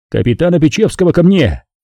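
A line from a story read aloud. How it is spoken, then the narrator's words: Shout. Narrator (Russian): Я крикнул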